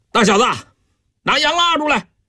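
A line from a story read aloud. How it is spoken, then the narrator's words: Hoarse shout. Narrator (Chinese): 姚以斌破着嗓子大喊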